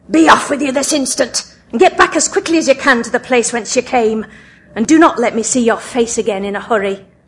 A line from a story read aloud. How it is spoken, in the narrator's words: he said to her in a commanding voice